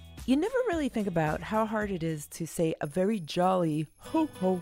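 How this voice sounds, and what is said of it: Usual voice. Nothing is said of it.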